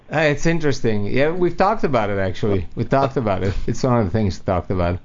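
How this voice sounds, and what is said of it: Foreign, mixed Italian-European accent. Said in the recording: “his accent sounds foreign... a foreign-sounding accent... It's a weird accent. I was born and raised in Italy... my accent is a little mixed. But originally I'm Italian.”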